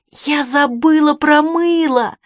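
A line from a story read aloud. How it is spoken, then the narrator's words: Panting exclamation from heat. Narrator (Russian): Пыхтя от внезапной банной жары, воскликнула Чармейн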